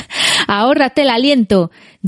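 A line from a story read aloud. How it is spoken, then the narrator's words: Laughing. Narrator (Spanish): dijo Merry riendo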